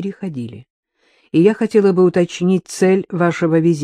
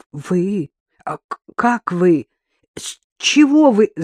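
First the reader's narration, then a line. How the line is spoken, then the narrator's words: Indignant stammering. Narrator (Russian): заикалась она возмущенно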